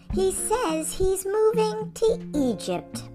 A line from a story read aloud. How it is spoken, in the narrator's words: I laughed